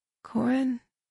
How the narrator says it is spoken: Tahiri mumbled

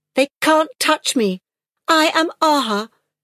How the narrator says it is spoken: said in a shrill, fierce voice, and burst into tears

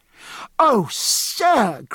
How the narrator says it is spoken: cried George

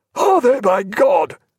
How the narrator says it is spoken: cried Jack

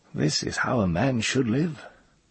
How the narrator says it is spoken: sighed

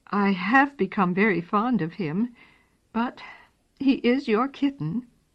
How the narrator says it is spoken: The children's mother was polite, but her voice trembled a little when she said

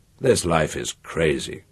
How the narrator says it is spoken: Itali released a stifled snort and said

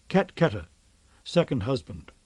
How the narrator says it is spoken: Real murmured

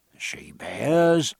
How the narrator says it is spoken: murmured Bonden again

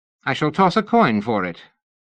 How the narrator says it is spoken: her ladyship decided brightly

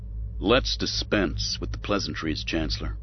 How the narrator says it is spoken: Sabaoth said stiffly

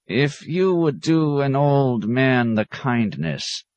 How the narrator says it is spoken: croaked the monk, dragging out his words in a plodding monotone

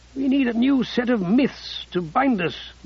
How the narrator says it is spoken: Ruddy wheezed

